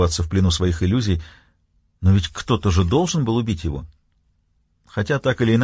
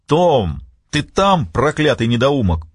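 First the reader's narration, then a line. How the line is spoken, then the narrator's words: Roaring from outside. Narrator (Russian): проревел кто-то снаружи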